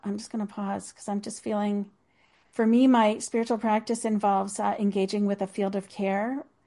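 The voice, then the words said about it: Choked-up, emotional voice. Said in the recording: “Oh, I'm getting choked up.”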